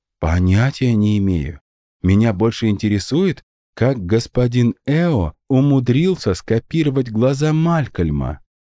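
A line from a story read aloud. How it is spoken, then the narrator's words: Plain. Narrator (Russian): ответил секретарь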